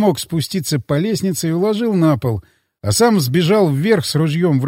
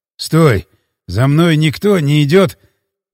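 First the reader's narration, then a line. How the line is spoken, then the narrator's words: Hoarse wheeze. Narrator (Russian): прохрипел я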